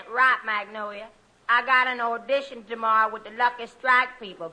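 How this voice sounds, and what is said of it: Thick put-on Southern accent. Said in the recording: “You can thin out your accent a little now ... Gotta keep my accent”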